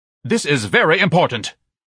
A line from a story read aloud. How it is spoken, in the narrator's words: Ignatius shouted worriedly